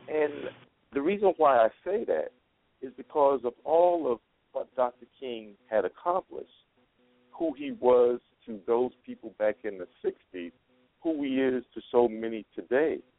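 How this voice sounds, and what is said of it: New York accent. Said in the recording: “Excuse my New York accent coming out. ... I try to hide it most of the time. ... water and martyr are a little difficult for me to say.”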